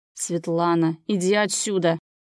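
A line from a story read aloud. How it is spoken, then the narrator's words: Growling. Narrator (Russian): прорычал он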